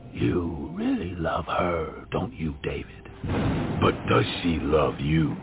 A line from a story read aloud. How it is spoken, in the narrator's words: said in a demonic voice